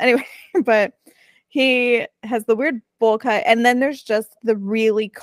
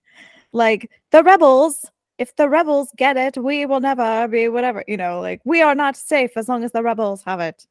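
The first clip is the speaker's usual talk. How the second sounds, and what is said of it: Put-on transatlantic accent. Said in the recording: “he's got the um transatlantic accent ... wow, what a voice.”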